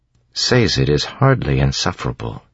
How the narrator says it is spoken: Vin said coolly

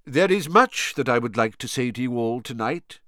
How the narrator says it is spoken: said Dumbledore

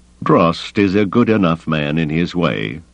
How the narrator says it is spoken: Thrawn said evenly

